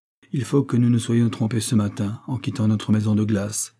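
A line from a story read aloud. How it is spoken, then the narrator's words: Plain. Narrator (French): dit Sabine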